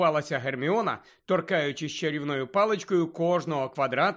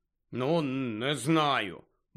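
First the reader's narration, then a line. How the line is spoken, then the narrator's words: Grumble. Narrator (Ukrainian): буркнув Рон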